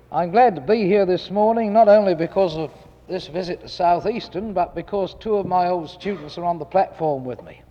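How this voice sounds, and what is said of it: Speaks with a noticeable accent. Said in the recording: “I can't help this accent. I was born with it. I speak English as English should be spoken”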